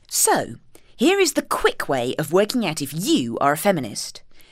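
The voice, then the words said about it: Posh reading voice. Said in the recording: “I'll do it in my posh reading voice.”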